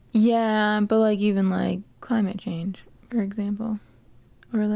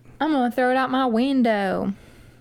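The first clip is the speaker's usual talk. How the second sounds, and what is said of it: Sudden put-on accent. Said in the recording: “Don't know where that accent came from, but it came and it went.”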